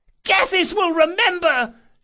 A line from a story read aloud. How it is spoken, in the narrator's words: screeched